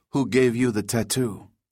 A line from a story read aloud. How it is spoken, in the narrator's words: asked the second